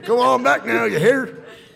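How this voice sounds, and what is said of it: Put-on Kentucky country accent. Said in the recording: “That's how you're supposed to talk to him if you're from Kentucky, right?... Now I can sound country.”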